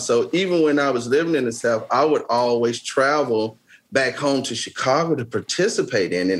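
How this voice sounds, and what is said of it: Heavy Southern US accent. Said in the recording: “I have this heavy Southern accent”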